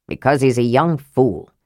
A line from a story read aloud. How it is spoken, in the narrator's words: said Flint gruffly